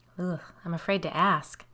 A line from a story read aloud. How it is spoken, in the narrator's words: said with a small laugh